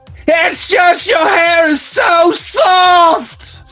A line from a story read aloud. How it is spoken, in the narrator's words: Cinder cried